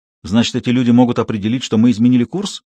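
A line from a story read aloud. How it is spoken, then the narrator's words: Plain. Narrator (Russian): спросил Камаль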